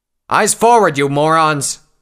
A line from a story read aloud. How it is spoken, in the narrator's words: the officer shouted